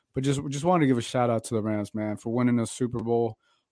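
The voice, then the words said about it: Hoarse, worn-out voice. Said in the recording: “I don't know if you can tell my voice. My voice is gone.”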